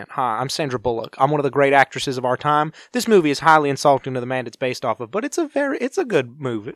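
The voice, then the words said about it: Put-on Southern accent. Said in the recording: “talking with a southern accent ... I will win an Oscar for this accent”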